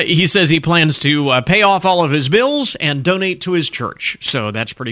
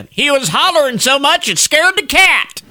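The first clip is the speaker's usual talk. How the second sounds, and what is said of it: Put-on Southern US accent. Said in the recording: “You have to read that line with a southern accent.”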